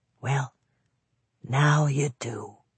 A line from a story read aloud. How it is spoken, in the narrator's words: Chris whispered